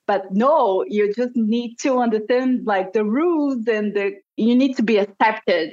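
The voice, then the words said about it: Non-native English accent. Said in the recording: “my English skills and my accent”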